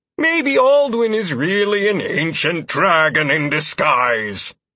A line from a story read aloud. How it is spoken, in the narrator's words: said dramatically